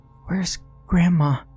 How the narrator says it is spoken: rasped Nat just above a whisper

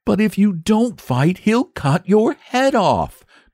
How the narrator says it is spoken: gasped the boy, miserable at the prospect of losing both his fight and his friend

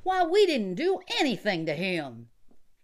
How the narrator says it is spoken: Johnny and the cowboy cried together

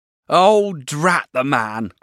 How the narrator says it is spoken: cried Peggotty

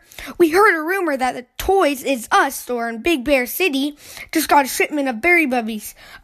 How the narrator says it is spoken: cried brother

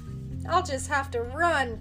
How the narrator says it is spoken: cried Tommy

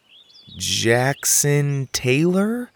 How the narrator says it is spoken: I said slowly

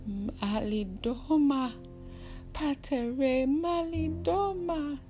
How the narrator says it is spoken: Suddenly, the woman screamed

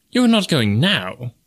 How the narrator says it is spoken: exclaimed the wagerer

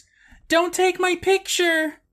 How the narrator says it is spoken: he screams

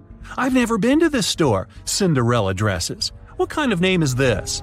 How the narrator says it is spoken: A woman in a purple dress exclaimed

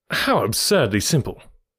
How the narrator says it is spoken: I cried

